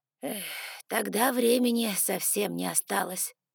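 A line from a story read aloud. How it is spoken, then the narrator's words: Sighing. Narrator (Russian): вздохнул мистер Эшли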